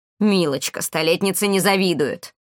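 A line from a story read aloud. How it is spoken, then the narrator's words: Snapping old woman. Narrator (Russian): огрызнулась старуха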